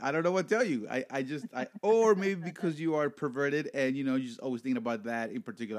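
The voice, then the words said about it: Thick heavy accent. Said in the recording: “your heavy-ass accent ... my heavy accent ... I do have a thick accent”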